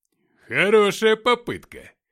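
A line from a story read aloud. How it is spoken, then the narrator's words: Exclaiming. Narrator (Russian): воскликнула копия Филиппыча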